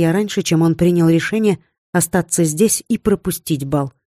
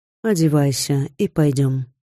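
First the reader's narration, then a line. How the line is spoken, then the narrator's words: Calm. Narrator (Russian): спокойно произнес он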